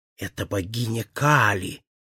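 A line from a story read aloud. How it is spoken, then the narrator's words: Whispered. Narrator (Russian): прошептал он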